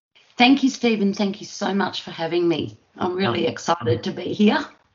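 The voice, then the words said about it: Australian accent. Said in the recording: “your lovely accent ... I'm from Australia.”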